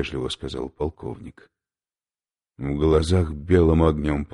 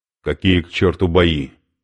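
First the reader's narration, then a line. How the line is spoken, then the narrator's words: Sharp. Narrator (Russian): сказал резко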